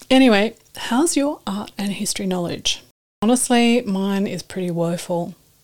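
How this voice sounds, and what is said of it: Slightly husky voice. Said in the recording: “excuse my voice. I'm a little husky today”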